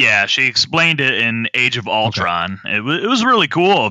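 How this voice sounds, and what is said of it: Usual voice. Nothing is said of it.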